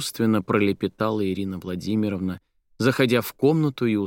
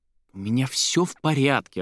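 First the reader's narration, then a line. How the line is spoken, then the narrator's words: Irritated, resigned. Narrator (Russian): раздраженно проговорила Соня, понимая, что ничего толкового из этого разговора не выйдет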